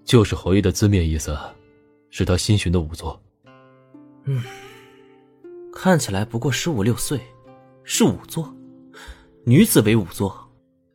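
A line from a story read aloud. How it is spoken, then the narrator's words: Wry laugh. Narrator (Chinese): 林怀苦笑一声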